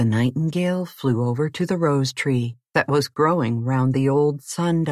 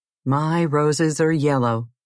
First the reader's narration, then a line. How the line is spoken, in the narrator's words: it answered